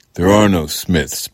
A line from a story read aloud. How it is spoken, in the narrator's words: Paul bellowed